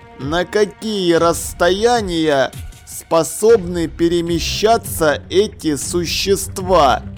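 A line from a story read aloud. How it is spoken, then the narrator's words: Slow, deliberate, condescending. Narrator (Russian): Он говорил очень медленно и отчетливо, словно обращаясь к ребенку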